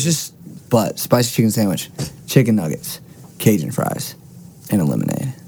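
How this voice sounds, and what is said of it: Usual voice. Nothing is said of it.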